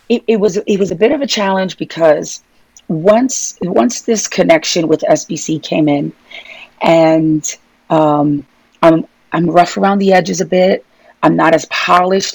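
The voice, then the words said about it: Brooklyn New York accent. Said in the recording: “filter the New York ... your Brooklyn accent”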